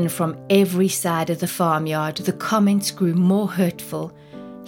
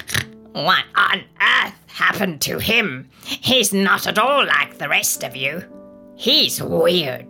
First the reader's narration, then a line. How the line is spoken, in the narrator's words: the pigs, who were not known to be very discreet, grunted